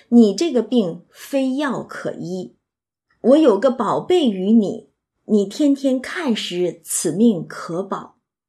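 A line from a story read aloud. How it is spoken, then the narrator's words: Sighing Taoist. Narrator (Chinese): 那个道士就叹说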